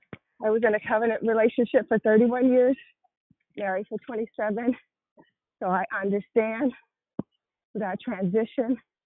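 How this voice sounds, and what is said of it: Breathless, out of breath voice. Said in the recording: “running, out of breath, out of shape”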